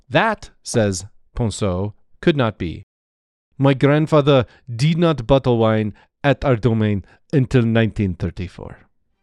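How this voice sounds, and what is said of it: Put-on French accent. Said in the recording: “okay, here we go, more French ... I was so hoping you'd do the accent.”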